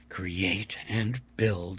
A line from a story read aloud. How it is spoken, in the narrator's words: I muttered